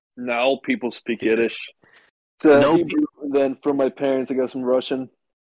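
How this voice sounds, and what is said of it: Heavy, harsh foreign accent. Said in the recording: “why is your accent so terrible?... it's like getting harsher”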